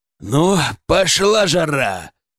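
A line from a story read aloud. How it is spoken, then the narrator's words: Snarling growl. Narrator (Russian): прорычал я, оскалившись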